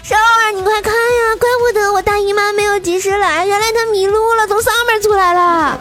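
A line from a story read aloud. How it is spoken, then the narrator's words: Shouting. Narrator (Chinese): 他就大叫，然后跟我说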